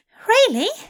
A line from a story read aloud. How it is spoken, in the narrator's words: Aziraphale cried out, a delighted smile bursting upon his face